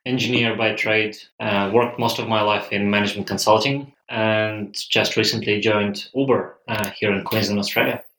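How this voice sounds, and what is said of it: Russian accent. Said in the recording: “I'm Russian, as you can probably judge by my accent.”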